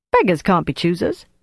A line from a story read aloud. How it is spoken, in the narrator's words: Flick said cheerfully